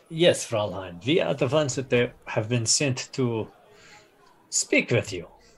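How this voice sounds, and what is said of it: German accent. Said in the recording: “Your accent, you're German?”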